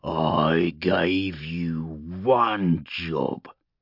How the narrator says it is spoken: the war boss snarled

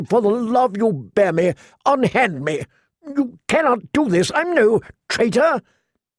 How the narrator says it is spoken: the prisoner asked desperately

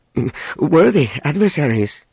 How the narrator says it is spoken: he stammered

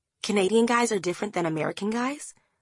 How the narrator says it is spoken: Franny asks

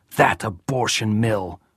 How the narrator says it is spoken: she spat

